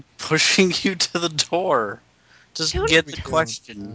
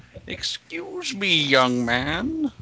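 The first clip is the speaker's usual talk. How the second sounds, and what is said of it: Convincing old man voice. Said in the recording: “your old man voice is so good”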